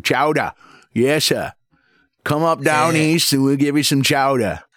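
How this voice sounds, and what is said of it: Put-on New England Yankee accent. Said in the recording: “a very Yankee way of saying it too”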